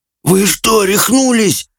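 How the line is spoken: Hoarse wheeze between coughs. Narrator (Russian): просипел Джаред, задыхаясь от приступов кашля

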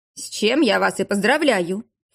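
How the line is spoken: Snorted. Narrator (Russian): фыркнул экскурсовод

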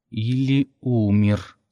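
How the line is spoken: Hissed through gritted teeth. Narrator (Russian): сквозь зубы процедил Кертис

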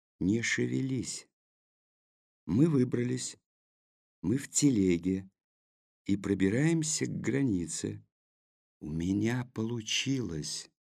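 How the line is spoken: Quiet. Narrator (Russian): тихо сказал Маркус

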